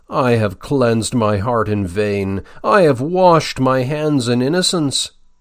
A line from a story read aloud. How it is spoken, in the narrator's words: made him, for a moment, in his infirmity, exclaim